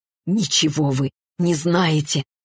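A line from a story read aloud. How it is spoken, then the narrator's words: Hoarse rasp. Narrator (Russian): прохрипела Арина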